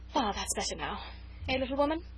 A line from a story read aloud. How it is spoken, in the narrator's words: said with a sigh of satisfaction